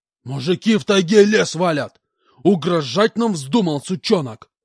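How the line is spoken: Colonel yelling again. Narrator (Russian): Опять заорал полкан

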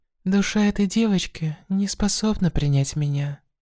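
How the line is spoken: Said quietly. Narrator (Russian): тихо сказала она

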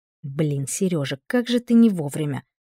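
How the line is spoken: Grumbling mutter. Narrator (Russian): буркнула я

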